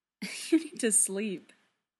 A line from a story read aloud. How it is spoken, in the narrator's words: Steve says, laughing